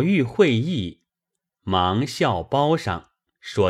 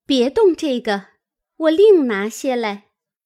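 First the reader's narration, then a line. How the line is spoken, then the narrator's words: Hurried, smiling. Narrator (Chinese): 方官心中因是蕊官之赠，不肯与别人，连忙拦住，笑说道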